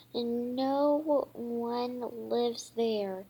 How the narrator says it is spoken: she said

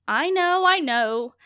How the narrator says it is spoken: called out as beautifully as ever

